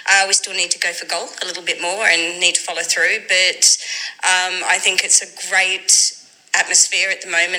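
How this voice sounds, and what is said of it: Non-local accent, not from Leyton. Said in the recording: “from your accent, you're not from Leyton”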